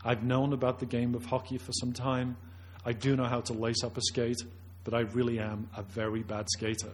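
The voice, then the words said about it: Noticeable non-Canadian accent. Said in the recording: “my voice and my accent gives away the game, and obviously I didn't grow up playing pond hockey in Flin Flon”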